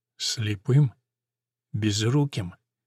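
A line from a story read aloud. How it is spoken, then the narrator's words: Gentle question. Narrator (Russian): Все так же мягко спрашивает Пирес Феррейра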